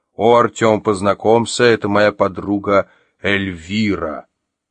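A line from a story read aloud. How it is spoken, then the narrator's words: Joyful deep voice. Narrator (Russian): радостно пробасил Олег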